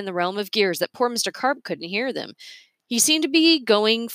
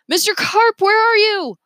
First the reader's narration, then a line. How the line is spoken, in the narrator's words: Leo screamed